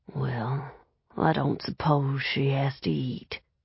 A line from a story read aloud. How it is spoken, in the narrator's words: he mumbled